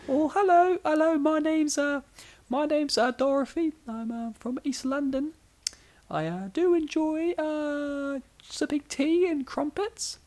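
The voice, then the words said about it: High-pitched put-on British accent. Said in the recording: “When I go high voice, for some reason, my default is like British... It's either British or Mickey Mouse.”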